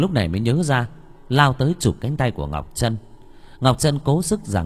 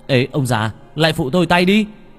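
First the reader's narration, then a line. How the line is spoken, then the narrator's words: Shouting. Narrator (Vietnamese): Bằng la lên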